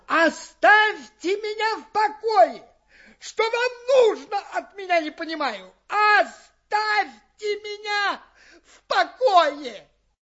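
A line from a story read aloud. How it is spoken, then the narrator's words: Shouting. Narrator (Russian): кричал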